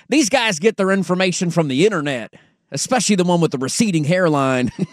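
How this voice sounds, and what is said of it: Put-on Southern accent. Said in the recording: “I don't know why I'm going Southern accent, but I'm going to keep going with it anyways”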